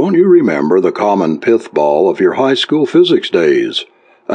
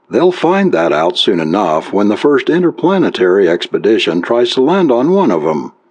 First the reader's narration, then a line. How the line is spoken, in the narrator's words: chuckled